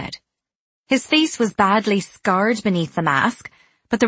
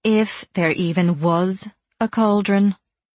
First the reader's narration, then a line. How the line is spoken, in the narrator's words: Kat said dryly